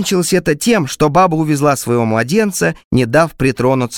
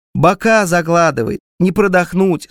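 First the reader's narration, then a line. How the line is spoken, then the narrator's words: Mocking, smiling woman. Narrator (Russian): сообщила баба и почему-то насмешливо улыбнулась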